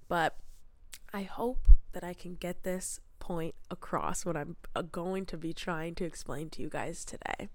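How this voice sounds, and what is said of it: Sick voice, scratchy throat, stuffy nose. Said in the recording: “I am developing a cold. I have a scratchy throat and a bit of a stuffy nose, so if I sound sick, unfortunately I am.”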